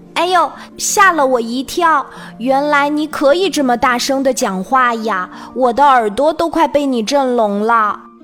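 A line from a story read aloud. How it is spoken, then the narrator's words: Loud. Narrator (Chinese): 神奇的眼镜大声地说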